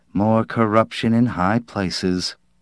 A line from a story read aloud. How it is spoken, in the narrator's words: his wife said in a low voice